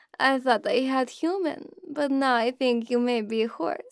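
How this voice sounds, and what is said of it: Russian-accented English. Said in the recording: “you like my accent”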